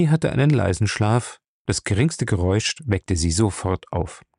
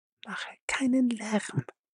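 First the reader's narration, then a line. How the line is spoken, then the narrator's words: Whisper. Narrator (German): flüsterte Faye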